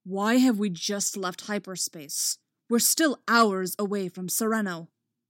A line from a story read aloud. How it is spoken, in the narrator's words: barks